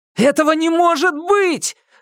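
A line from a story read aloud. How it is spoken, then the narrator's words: Yell with a groan. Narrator (Russian): заорал стеном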